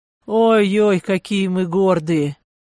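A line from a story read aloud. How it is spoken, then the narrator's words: Hoarse, right in ear. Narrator (Russian): хрипло постановив самое ухо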